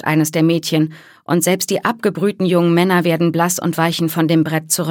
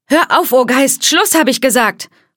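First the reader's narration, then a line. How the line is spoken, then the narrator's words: Raised voice. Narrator (German): ruft die Gastgeberin mit erhobener Stimme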